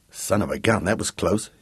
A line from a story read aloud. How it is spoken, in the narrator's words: he muttered